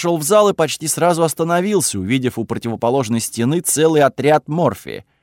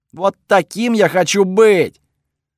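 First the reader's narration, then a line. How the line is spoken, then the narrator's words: Shouting. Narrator (Russian): бог орал у меня в голове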